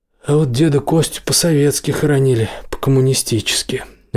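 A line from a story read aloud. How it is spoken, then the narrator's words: Sighing again. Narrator (Russian): опять вздохнул Серега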